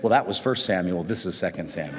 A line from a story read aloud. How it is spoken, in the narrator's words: thinking quickly on his feet, he said